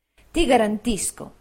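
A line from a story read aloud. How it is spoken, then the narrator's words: Plain. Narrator (Italian): disse Traddles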